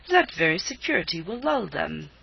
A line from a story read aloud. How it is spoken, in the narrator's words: cried the Baron impatiently